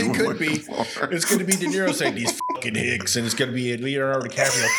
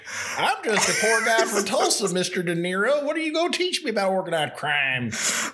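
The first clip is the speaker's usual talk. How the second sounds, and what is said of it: Put-on Oklahoma twang. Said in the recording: “talking with a twang”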